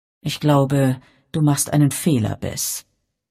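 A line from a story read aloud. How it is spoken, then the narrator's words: Sighing. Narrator (German): seufzte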